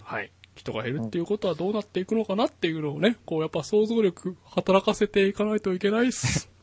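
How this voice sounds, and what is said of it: Strange, near-tearful put-on voice. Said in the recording (Japanese): “なんか泣きそうな声だったけど ... 泣きそうになってる時のモノマネ ... なんでその声を変にする必要があったのかよくわかんない”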